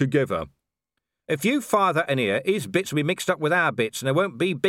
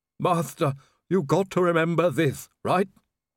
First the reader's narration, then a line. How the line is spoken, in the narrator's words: Igor groaned